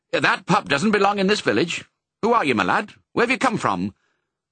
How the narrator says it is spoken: said sharply

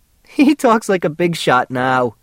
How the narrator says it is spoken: she giggled

